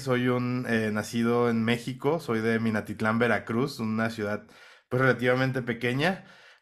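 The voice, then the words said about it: Mexican Spanish accent. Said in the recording (Spanish): “mexicano, lo notaréis por el acento”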